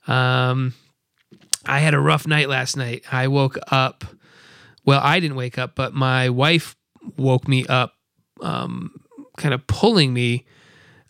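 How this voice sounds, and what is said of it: Tired-sounding voice. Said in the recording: “I'm pretty tired right now. You might be able to hear it in my voice”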